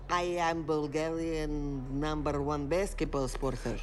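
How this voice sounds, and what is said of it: Heavy put-on Bulgarian accent. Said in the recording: “I am Bulgarian with a heavy accent.”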